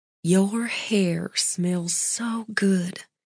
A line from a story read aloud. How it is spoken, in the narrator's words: Shelby murmured